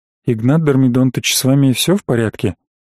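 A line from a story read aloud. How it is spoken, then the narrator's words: Near-whispered question. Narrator (Russian): почти шепотом спросил Бренников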